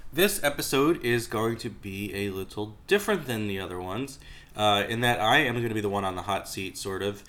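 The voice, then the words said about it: Congested voice from a cold. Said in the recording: “I'm a little under the weather, so I sound like I have a cold. It's because I do!”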